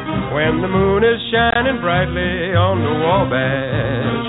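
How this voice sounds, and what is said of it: American accent in singing. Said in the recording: “I love that American accent.”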